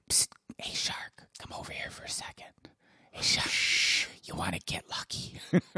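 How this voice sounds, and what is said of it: Whispering. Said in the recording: “What is she whispering?”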